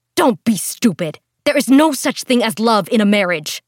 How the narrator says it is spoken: her mother snapped back

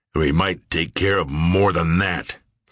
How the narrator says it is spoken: Sears uttered furiously

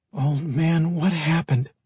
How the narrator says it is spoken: Michaela whispered

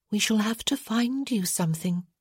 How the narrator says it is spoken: she said softly

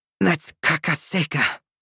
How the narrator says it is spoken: Reyna grumbled

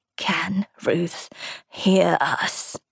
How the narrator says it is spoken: She rasped

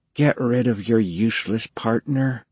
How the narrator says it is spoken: Hobie whispered

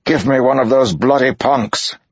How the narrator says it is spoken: Tulmanis shouted

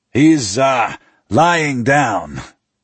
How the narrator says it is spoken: Richard says loudly, with incongruous cheerfulness

